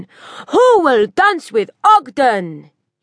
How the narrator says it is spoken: bellowed

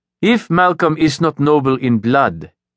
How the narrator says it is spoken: Callan said

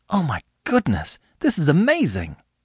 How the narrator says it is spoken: exclaimed

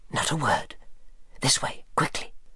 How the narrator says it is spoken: whispered

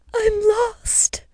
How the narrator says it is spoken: wailed the girl, looking around with eyes that could not see

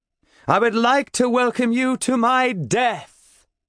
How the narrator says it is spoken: I shout

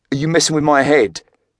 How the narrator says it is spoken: Craig blurted angrily

